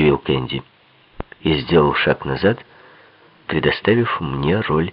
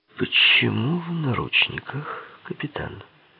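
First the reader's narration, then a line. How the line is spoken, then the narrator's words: Weak affected aristocratic voice. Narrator (Russian): спросил слабым голосом аристократа, кичащегося своей утонченностью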